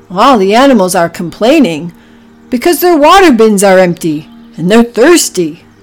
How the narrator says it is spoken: Oliver grunted again

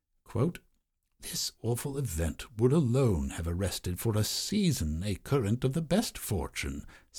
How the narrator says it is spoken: sighed William Wood

